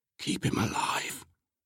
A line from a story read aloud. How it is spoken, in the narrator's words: he whispered to the Sky Father